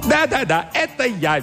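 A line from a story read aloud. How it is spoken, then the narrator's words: Cheerful shout. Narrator (Russian): весело закричал он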